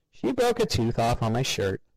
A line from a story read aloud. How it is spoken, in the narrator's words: Ted laughed